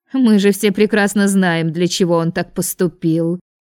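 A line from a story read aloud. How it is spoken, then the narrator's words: Snide, sneering. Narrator (Russian): ехидно оскалилась леди Ариэн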